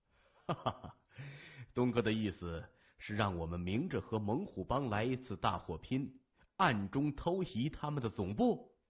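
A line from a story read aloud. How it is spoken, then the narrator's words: Laughing. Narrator (Chinese): 他笑着说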